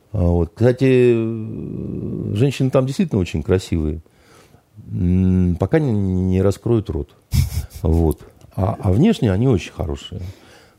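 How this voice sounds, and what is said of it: Speaks Russian with a noticeable accent. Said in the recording (Russian): “Так вы же по-русски с акцентом говорите ... Я действительно по-русски говорю. С явным акцентом совершенно”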